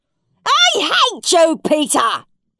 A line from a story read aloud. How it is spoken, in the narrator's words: he screeched